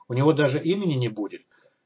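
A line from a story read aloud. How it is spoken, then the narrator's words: Barely audible question. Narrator (Russian): еле слышно спросила профессор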